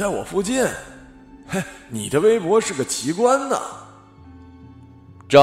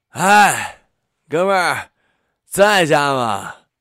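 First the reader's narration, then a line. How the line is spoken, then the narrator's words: Drunken slurred voice. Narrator (Chinese): 声音被酒精泡的稀烂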